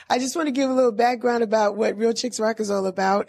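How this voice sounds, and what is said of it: Hoarse, strained voice. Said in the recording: “today I don't have my voice ... we need some cough drops ... my voice is bad”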